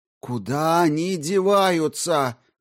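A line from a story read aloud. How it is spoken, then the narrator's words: Shouted. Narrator (Russian): прокричал кто-то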